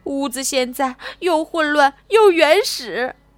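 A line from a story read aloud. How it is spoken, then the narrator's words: Mother crying. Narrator (Chinese): 妈妈边哭边说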